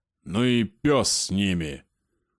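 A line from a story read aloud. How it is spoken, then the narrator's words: Growled. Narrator (Russian): прорычал Славонич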